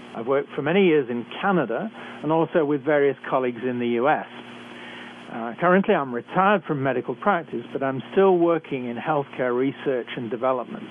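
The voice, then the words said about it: British accent. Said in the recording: “I'm a physician trained in Britain, as I'm sure you can tell from my accent.”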